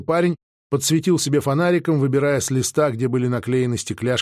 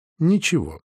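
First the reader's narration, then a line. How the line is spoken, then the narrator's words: Calm permission. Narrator (Russian): разрешила Дарина спокойно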